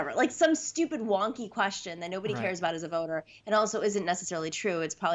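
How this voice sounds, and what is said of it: Usual voice. Nothing is said of it.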